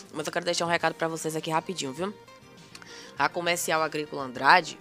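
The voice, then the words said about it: Hoarse voice. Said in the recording (Portuguese): “Tô rouca, rouca. ... Que tosse é essa, meu Jesus?”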